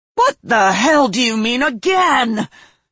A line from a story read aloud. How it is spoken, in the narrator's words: Sarah roared